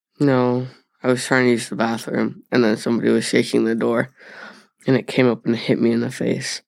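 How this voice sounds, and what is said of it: Congested voice from a cold. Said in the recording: “I don't know if you can like hear my voice right now. I have a cold”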